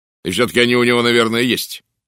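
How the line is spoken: Sharp remark. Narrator (Russian): резко заметил Уэстон

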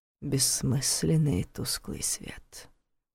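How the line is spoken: Whisper in ear. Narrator (Russian): шепнул ему в ухо голос Долгова

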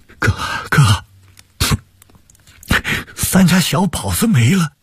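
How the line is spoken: Crying. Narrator (Chinese): 王俊山……哭着说

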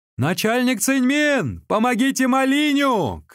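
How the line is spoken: Shout. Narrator (Russian): крикнул ему Сунцзян

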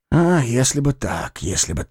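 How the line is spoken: Inward sigh. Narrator (Russian): вздохнул я про себя

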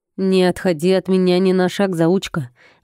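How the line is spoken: Husband's growl. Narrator (Russian): рыкнул муж

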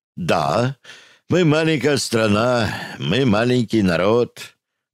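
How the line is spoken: Sad speech. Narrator (Russian): грустно произнес Рычагов

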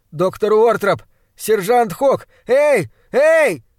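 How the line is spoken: Weak muffled, then loud shouting. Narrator (Russian): Мой голос прозвучал слабо и глухо, как крик раненого лесного животного, и поэтому я закричал громко

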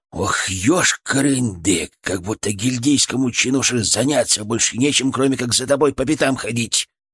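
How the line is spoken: Hissing in the ear. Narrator (Russian): прошипел Фырк мне в ухо

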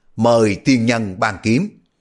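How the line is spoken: Loud shout. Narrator (Vietnamese): Ngụy Trường Phong cao giọng hét lớn

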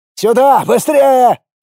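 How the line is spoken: Shouted. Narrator (Russian): закричал Елисей

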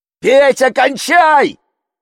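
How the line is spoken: Shouted together. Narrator (Russian): заорали мы

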